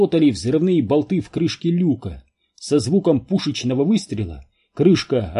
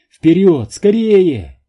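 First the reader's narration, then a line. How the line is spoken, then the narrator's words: Shout. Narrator (Russian): прокричала Нелл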